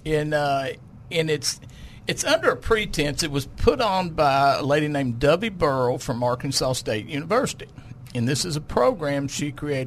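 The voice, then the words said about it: Local Lonoke County Arkansas accent. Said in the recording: “it sounds like you're saying W ... I'm going to diss on your accent ... It's just the Lono County in me.”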